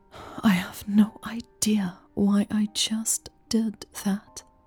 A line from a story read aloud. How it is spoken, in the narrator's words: she whispered